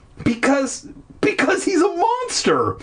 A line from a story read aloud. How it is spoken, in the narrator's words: Will exclaimed